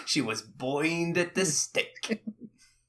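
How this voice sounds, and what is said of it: Exaggerated old-timey New York accent. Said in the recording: “His accent is somewhere between JFK and that little guy in mobster cartoons ... a little bit of a New York accent ... It's the same cadence.”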